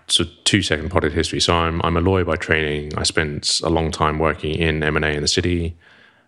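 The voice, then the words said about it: Posh British accent. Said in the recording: “You just sound posh ... the poshest show we've ever done”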